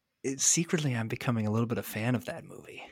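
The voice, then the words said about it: Quiet, hushed voice. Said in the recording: “I'm going to say this quietly.”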